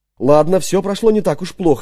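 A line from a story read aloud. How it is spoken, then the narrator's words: Plain. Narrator (Russian): сказал я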